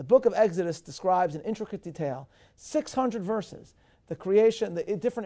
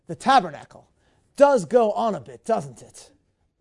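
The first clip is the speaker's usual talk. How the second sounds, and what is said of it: Poor put-on English accent. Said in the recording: “my English accent is terrible”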